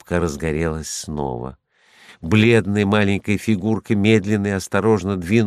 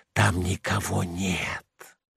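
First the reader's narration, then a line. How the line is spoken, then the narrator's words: Growing whisper. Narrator (Russian): лопухи все яснее шептали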